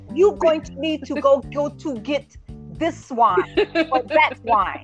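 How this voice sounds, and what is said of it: Imitated Italian accent. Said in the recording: “in his little accent from Italy ... You sound just like Roberto”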